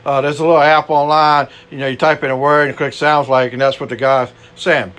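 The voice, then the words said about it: Cajun-accented English. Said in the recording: “I'm just an old Cajun boy here. My accent is not really that great.”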